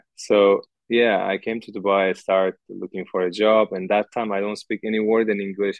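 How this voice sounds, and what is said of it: Non-native accented English. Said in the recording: “I'm sorry for my accent and for my problems in English... it's a very sexy accent... even the accent”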